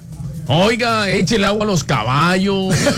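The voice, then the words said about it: Put-on Mexican Spanish accent. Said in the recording (Spanish): “¿Se puede hacer acento mexicano, caballito?”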